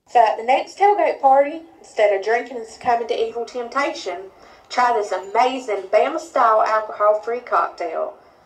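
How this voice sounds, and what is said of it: Rapid middle Alabama accent. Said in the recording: “She's as Alabama as they come. She has the perfect accent, right? The kind of middle Alabama kind of rapid clip accent with all the right vowel inflections.”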